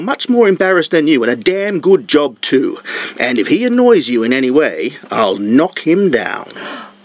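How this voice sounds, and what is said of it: Pompous English accent. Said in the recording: “with the pompous English accent ... thanks for doing it in character”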